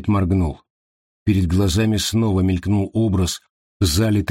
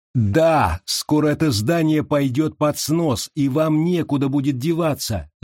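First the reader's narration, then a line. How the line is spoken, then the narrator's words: Shouted. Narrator (Russian): закричала Уилла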